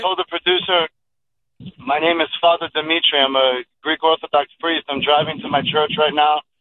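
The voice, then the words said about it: Hoarse, nearly lost voice. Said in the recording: “I lost my voice. ... we're screaming last night.”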